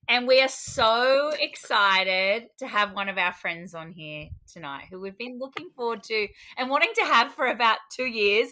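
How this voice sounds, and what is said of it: Australian accent. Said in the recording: “from Australia, as you can tell from the terrible accent”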